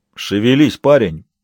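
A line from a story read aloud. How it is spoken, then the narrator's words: Grumbling. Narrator (Russian): проворчал провожатый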